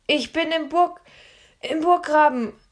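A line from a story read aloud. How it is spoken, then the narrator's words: Breathless shout. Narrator (German): rief Philipp zurück und schnappte nach Luft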